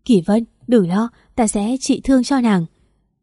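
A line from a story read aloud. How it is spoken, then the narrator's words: Intense urgent speech. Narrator (Vietnamese): gắt gao nói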